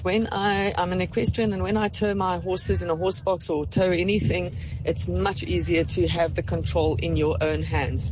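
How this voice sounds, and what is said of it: West Indian accent, like Chris Gayle. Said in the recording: “that accent. Oh, I love your voice ... It just reminded me of the West Indian team ... quite an interesting accent ... You sound just like Chris Gayle.”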